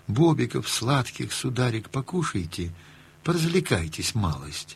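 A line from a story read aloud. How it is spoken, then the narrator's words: Tender, sing-song. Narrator (Russian): Сказала ласково, пропела словно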